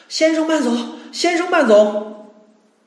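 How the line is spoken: Breathless shouting. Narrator (Chinese): 一边喊着，一边气喘吁吁的

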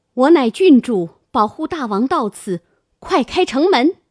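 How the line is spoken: Calling up from below. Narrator (Chinese): 琼英在城下应声交转叫道

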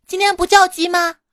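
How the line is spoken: Shocked shout. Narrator (Chinese): 老板娘大惊，冲我喊道

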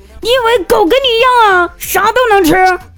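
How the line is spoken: Yelling. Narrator (Chinese): 我妈直接对着我吼了一句

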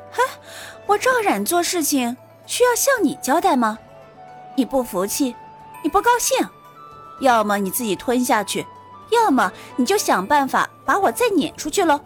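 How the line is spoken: Faint smile. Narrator (Chinese): 苏玲微微一笑

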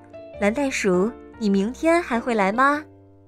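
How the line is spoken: Plain. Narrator (Chinese): 沙祖老师问

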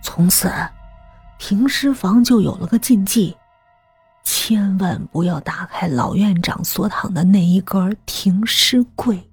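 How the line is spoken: Lowered voice. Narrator (Chinese): 吕平压低声音

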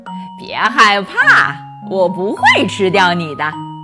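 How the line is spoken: Said with a smile. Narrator (Chinese): 笑着说

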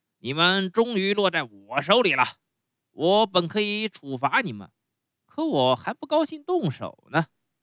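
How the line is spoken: Gleeful. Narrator (Chinese): 心花怒放地对他们说

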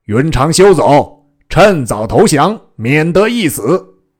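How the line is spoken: Shouting. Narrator (Chinese): 大将朱然叫曰

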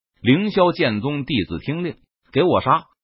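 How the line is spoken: Sharp shouted command. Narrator (Chinese): 李青衣交斥道

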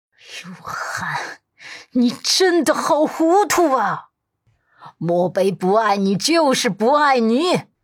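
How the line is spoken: Old woman, furious, teeth gritted. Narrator (Chinese): 陆家老太太咬牙切齿

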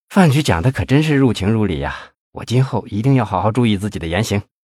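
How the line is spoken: Admiring exclamation. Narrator (Chinese): 魏显波感叹道

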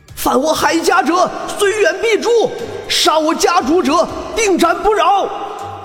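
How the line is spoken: Battle cry. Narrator (Chinese): 一阵喊杀声

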